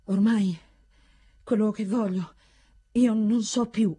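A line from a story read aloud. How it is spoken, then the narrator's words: Stammering. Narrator (Italian): balbettava Torismondo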